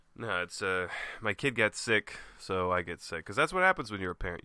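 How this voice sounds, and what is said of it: Congested voice from a cold. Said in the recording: “I have a cold. I'm sick.”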